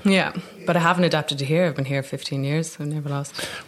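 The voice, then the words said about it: Dublin Irish accent. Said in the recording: “got my dub accent and never lost it”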